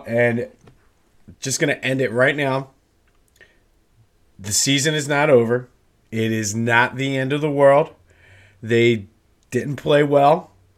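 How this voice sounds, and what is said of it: Sick, strained voice. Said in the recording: “Please excuse my voice. I'm still kind of sick”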